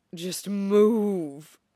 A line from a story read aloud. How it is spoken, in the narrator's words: Shota groans